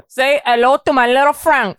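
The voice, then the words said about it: Deliberately bad imitated film accent. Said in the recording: “with the terrible accent ... That's so bad. ... It's so bad”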